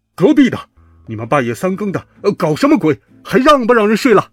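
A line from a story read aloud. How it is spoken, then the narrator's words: Loud roar. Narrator (Chinese): 一个巨大的吼声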